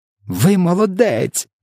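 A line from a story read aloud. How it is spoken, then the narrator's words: Exclaiming. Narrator (Ukrainian): вигукнула Софія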